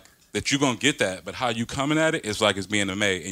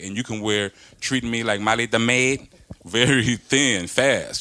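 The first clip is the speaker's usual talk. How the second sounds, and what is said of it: Put-on Puerto Rican accent. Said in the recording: “what accent was that ... That was ... Puerto Rican one.”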